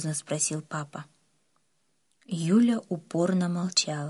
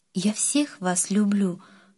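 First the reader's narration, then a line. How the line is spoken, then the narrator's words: Tearful. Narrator (Russian): сквозь слезы сказала мама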